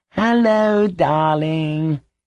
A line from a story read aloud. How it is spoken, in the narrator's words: he cooed